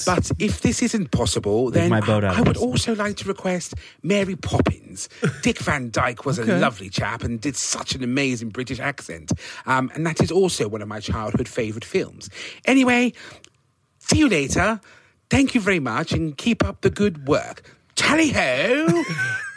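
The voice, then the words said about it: Possibly fake British accent. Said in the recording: “There's no fucking way that that's a real accent. ... it very well could be a British listener putting it on.”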